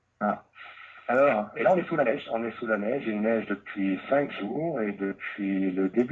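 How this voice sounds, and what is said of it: Swiss French accent. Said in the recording (French): “c'est un Suisse ... il nous vient de la Suisse qui parle français. Avec son accent mythique.”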